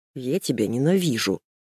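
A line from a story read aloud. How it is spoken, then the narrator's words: Mumbling. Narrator (Russian): бормочет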